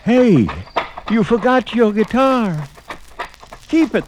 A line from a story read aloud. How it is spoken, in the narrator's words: the guitar player yelled